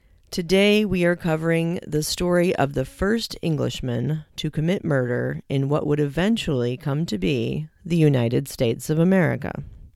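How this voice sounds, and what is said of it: Hoarse, congested voice. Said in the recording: “excuse my voice if it sounds a little off. I am still recovering from some fun bronchitis and sinusitis”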